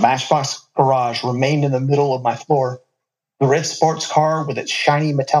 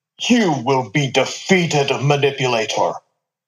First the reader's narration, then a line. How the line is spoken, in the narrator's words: growled out of a solid plastic mouth